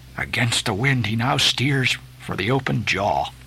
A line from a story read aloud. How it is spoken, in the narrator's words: murmured Starbuck to himself